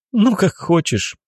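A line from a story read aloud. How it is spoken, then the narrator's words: Laughing. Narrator (Russian): Алина рассмеялась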